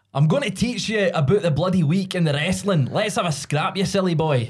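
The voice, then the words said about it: Exaggerated Scottish accent. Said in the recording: “You put on a great Scottish accent. ... You always put a more Scottish accent.”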